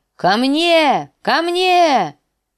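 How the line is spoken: Direwolf's shout. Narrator (Russian): закричал лютоволк

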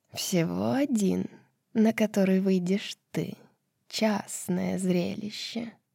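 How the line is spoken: Purring. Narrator (Russian): промурлыкала королева змей

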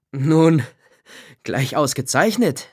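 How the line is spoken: Said with forced laugh. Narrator (German): sagte Jegor Semjonitsch hinter ihr eintretend und lachte gezwungen

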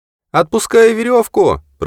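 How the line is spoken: Shouted. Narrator (Russian): прокричала она

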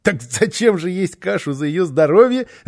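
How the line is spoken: Child laughing. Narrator (Russian): рассмеялся малыш

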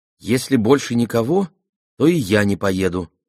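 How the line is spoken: Plain. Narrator (Russian): сказала Аламанда

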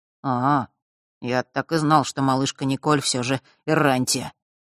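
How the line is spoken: Gloomy. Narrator (Russian): мрачно произнес он

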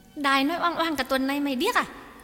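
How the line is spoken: Snapping irritably. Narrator (Vietnamese): Nụ gắt

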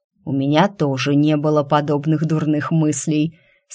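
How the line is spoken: Slightly offended grumble. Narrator (Russian): с легкой обидой проворчал Тиль

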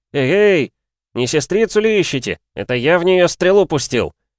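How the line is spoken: Bold shout. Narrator (Russian): Крикнул и сам испугался, как дерзко прозвучали его слова

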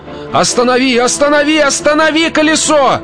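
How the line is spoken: Shout. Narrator (Russian): Закричал мистер Куджер, но уже не такой, как прежде

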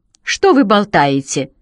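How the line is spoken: Indignant objection. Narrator (Russian): возмущенно возразил он

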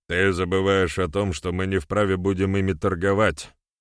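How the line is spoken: Grumbled after silence. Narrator (Russian): буркнул молчавший до того Бек

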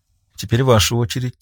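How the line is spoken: Quiet. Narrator (Russian): тихо произнесла

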